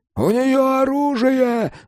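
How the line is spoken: Shouted. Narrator (Russian): закричал кто-то

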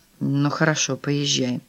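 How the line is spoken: Gruff mutter. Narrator (Russian): буркнул Филипп

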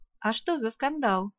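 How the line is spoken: Giggling. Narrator (Russian): Крина хихикнула

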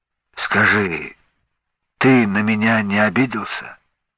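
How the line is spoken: Father sighs, then asks. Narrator (Russian): вздохнул отец помолчав спросил

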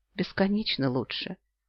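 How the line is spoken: Quiet reply. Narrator (Russian): отвечаю я так же тихо

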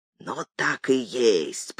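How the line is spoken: Whisper. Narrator (Russian): прошептал мой Иван

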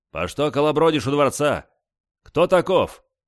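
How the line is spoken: Stern question. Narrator (Russian): Строго спросил

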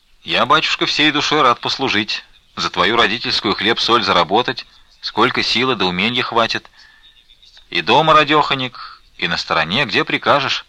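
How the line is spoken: Plain. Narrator (Russian): сказал красавец Алексей

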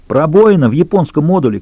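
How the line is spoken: Shouting over a siren. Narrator (Russian): крикнул он, стараясь перекричать сирену

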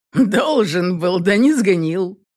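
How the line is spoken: Chuckling. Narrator (Russian): хохотнул он

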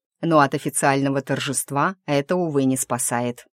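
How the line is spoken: Amused snort, then speaking. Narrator (Russian): хмыкнув, произнес Ричард

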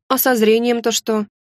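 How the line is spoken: Gloomy question. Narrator (Russian): Уныло поинтересовалась

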